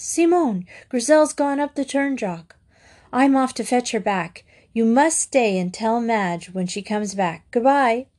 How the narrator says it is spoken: gasped

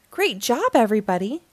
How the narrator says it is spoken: June exclaimed

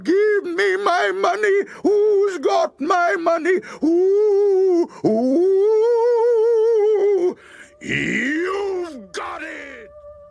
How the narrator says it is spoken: the woman cried

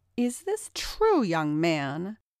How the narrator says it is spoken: Jen angrily asked Tom

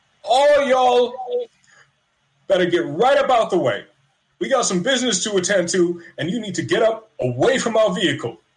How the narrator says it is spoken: Remy will shout

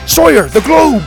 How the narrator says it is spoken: Grandpa shouted

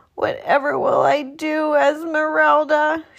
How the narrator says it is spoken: cried

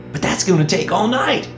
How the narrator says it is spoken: Ethan exclaimed

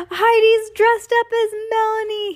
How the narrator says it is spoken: he cried

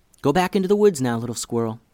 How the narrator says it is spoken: whispered Hallie

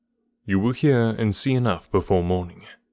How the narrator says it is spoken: he answered

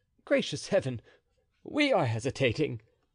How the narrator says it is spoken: cried D'Artagnan

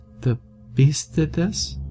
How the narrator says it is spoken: she asked, her voice shaking

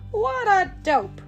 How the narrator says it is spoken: laughed

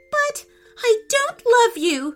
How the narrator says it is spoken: wailed the princess

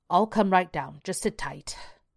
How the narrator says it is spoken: Alan growled

